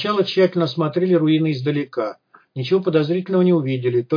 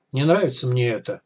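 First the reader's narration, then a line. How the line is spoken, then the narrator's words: Sighed. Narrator (Russian): вздохнул Бай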